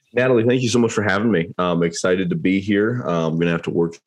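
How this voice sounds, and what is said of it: Voice slightly affected by cold. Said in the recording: “I've got a little bit of a cold this morning”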